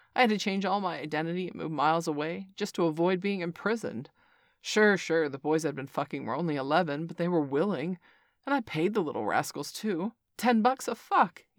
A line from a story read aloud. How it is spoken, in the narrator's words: let out a hearty laugh